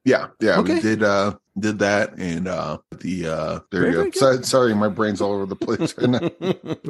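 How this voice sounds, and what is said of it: Deep, different-sounding voice, like a cold. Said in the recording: “you sound different... Are you doing like a deep film noir kind of I'm ... kind of voice?... Cold? You got a cold there?”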